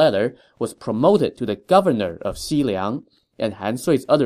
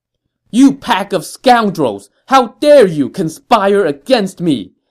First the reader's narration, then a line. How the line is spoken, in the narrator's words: an incensed Ma Chao shouted